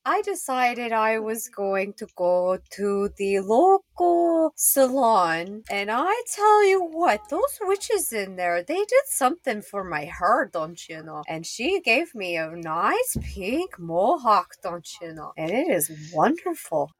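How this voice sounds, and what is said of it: Character voice with put-on accent. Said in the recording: “I'm trying to stay in character for this, you know, accent. Because it's really hard to keep up”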